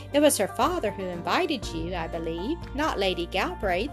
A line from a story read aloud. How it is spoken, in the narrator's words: he said